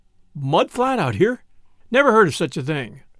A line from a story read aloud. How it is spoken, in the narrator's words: so Paul exclaimed with a snort of unbelief